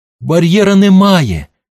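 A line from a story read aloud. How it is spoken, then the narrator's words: Joyful shout. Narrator (Ukrainian): радісно закричав Твісел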